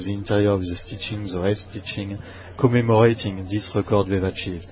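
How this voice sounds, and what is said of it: Speaks English with foreign accent. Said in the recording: “you start to get used to my accent”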